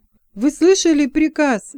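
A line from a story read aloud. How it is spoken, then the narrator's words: Exclaimed. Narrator (Russian): воскликнул Гарольд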